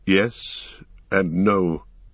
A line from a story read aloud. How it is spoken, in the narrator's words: he answered slowly